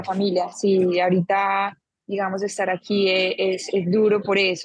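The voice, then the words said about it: Colombian paisa accent. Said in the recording (Spanish): “eres paisa también ... el mismo acento ... Parecido ... paisita ... tenéis el mismo, acento”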